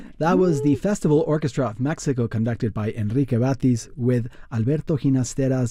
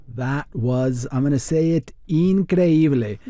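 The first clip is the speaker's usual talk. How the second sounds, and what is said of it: Put-on accent for one word. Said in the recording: “what I really love is your accent ... I only pull it out in special occasions”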